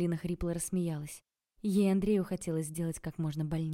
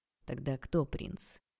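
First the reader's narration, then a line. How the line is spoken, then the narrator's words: Quiet question. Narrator (Russian): тихо спросил Андрей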